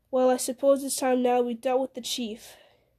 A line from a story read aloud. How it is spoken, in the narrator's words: Frodo said with a sigh